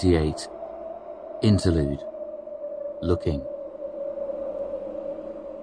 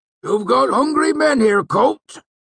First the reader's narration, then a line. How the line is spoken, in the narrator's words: Cobb called out